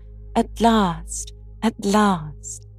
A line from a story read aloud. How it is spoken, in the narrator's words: a ravishingly lovely lady who exclaimed with a cry of rapture